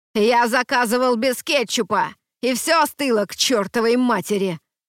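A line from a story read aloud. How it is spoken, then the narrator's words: Yelling. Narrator (Russian): орал Дуэйн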